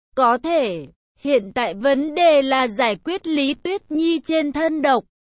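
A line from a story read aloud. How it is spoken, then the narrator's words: Smiling. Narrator (Vietnamese): La Thiên mỉm cười, nói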